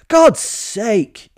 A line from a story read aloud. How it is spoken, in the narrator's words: I shouted